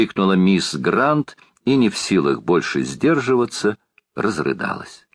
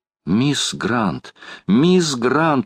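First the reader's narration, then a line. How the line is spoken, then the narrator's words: Exclaiming. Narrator (Russian): воскликнула леди Элен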